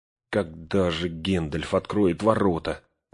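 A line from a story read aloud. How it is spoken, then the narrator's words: Trembling voice, asking. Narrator (Russian): дрожащим голосом спросил Пин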